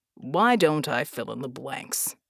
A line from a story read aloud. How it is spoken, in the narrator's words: Jack grunted